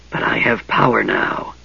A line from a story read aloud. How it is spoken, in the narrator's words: he whispered